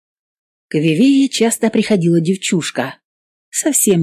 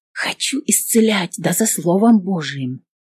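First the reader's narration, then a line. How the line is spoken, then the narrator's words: Tired night whisper. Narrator (Russian): прошептала сестра Зоя ночью, когда все болезные затихли, измученные долгим днем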